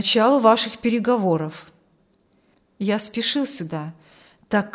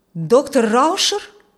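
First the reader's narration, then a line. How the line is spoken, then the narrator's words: Astonished exclamation. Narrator (Russian): воскликнул Каримский, пораженный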